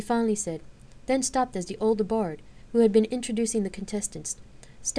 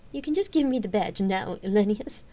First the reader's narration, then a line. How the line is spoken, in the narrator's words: Celista called over with a rich chuckle